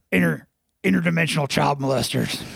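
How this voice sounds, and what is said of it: Alex Jones impression. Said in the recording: “in your Alex Jones voice?”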